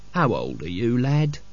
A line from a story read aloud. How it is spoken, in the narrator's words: said Albert kindly